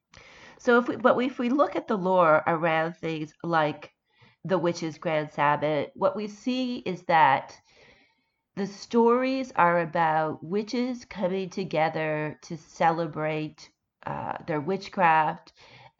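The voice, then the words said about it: Sick, congested-sounding voice. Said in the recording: “I am still recovering from this cold. You can probably hear it in my voice.”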